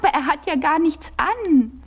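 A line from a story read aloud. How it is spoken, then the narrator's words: Small boy shouting loudly. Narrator (German): rief da ganz laut ein kleiner Junge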